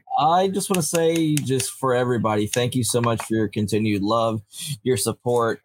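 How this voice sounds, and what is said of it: Yankee accent. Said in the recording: “my Yankee accent that I mix with the stutter”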